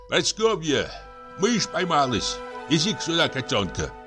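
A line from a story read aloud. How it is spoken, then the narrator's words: Shout. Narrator (Russian): Петр Демьяныч крикнул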